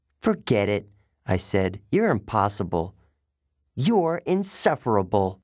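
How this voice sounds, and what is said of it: Usual voice. Nothing is said of it.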